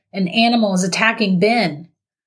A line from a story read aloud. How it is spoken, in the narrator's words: Noah shouted, totally out of breath